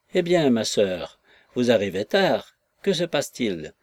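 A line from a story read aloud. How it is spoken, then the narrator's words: Somewhat curt. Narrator (French): dit Madame Glegg un peu sèchement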